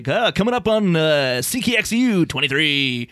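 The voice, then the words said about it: Radio announcer voice. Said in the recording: “an announcer who like maybe talks like this ... they put on a voice when they're doing announcing ... my announcer voice”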